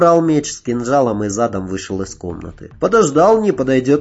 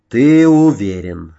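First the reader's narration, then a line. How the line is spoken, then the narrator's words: Sighing. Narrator (Russian): вздохнул он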